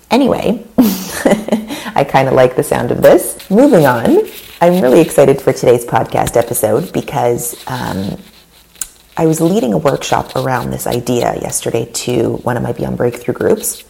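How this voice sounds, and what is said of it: Raspy voice. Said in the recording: “my voice is raspy.”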